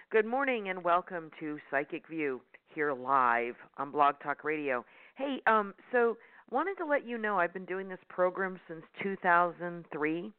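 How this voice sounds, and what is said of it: Hoarse, croaky throat. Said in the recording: “Sorry, I have a frog in my throat.”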